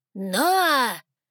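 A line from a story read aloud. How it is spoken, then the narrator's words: Amplified bark echoing, elder. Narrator (Russian): рявкнул старейшина ледяных, усиленный звук его голоса эхом разнесся по залу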